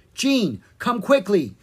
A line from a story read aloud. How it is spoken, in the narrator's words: Drake cried